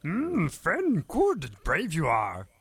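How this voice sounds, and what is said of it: Mangled Yoda character voice. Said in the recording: “I can do a sort of a mangled Yoda.”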